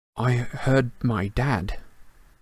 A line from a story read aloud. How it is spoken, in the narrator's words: Harry mumbled